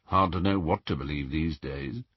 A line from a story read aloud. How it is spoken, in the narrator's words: muttered Dirk